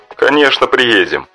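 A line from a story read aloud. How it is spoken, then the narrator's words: Laughing. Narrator (Russian): засмеялся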